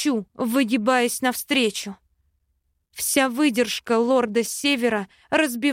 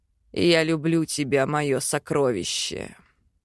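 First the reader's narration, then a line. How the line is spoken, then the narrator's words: Soft. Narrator (Russian): Тихо произносит Хакан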